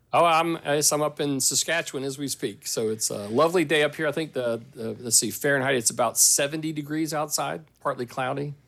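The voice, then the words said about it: American Southern accent. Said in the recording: “you've maintained your southern accent ... It's definitely not a Saskatchewan accent.”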